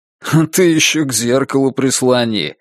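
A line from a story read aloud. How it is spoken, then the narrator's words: Mocking advice. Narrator (Russian): насмешливо посоветовал Сергей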